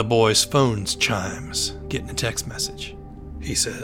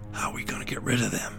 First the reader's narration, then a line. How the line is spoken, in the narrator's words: whisper